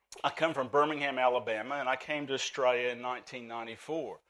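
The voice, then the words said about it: Southern US Alabama accent. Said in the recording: “he sounds a bit foreign ... The Southern Alabamian in me is pretty strong.”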